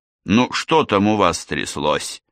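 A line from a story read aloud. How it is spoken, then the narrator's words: Almost growled. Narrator (Russian): почти зарычал Тедди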